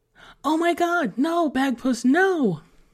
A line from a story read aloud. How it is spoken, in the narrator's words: Emily cried out behind him